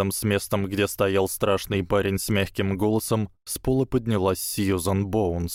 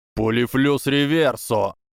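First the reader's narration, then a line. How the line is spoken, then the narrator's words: Young man roaring. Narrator (Russian): проревел оставшийся парень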